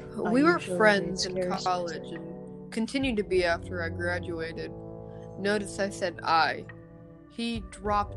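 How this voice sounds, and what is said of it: Creepy spooky reading voice. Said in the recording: “You must enable creepy voice. ... You must do it. ... Read to the podcast like this. ... this is double as creepy because I'm in the dark with the candle lit.”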